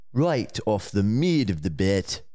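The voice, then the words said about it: Attempted South African accent. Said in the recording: “give you a South African accent ... That is not South African ... I thought he was South African accent”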